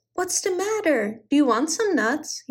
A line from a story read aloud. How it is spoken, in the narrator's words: he cried